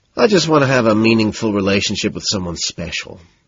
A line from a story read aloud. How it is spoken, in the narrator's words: sighing